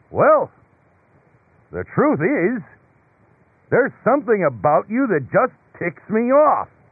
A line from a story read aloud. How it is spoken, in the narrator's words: a big voice came booming from up above and said